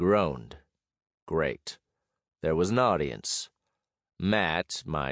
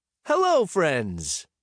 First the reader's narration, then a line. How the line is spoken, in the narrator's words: he said happily